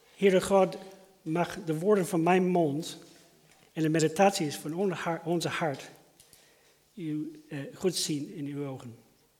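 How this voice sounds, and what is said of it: American accent in Dutch. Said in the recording (Dutch): “je hoort dat ik heb een accent. Ik kan het niet verbergen... Ik kom oorspronkelijk uit Amerika.”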